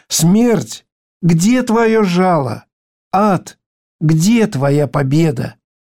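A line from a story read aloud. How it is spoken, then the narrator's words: Joyful exclamation. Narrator (Russian): мы можем радостно воскликнуть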